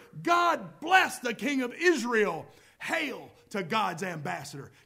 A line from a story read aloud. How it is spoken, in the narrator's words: they were shouting, shouting